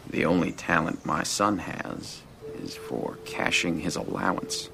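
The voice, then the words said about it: Impression of another man's voice. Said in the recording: “impersonating practically anybody... Do an impression.”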